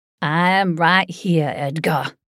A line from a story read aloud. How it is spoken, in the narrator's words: I growled